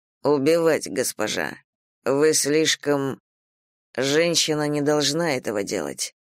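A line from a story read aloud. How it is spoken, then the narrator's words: Quietly. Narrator (Russian): тихо закончил Ли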